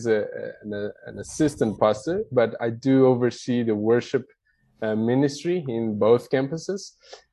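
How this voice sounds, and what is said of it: Brazilian-accented English. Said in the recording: “where my accent is ... I'm originally from Brazil. That's where the accent comes from.”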